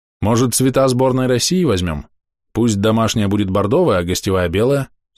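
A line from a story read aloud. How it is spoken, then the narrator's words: Plain. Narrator (Russian): спросил я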